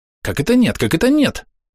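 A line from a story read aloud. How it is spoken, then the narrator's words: Rapid relieved chatter. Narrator (Russian): затараторил хоббит, обрадованный тем, что вопрос нового друга не касался страшных событий, случившихся недавно в землянике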